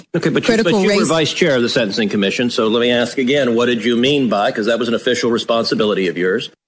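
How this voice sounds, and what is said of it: Nasal voice, slight Texas accent. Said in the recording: “He's like so nasally ... he's got that little bit of a Texas thing ... It's a little bit in there.”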